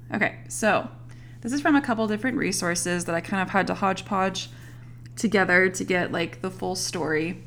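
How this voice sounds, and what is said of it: Hoarse, strained voice. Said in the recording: “my throat is still a little groggy ... I sound sick ... my voice just kind of gave out”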